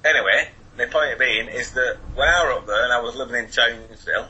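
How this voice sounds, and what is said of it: Northern English accent. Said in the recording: “my accent's a bit unusual... oh, from Wigan or Manchester”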